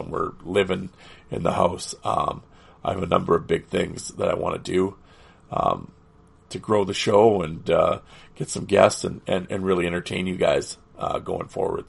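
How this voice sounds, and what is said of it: Hoarse, fading voice. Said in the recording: “as you can hear, I'm losing my voice”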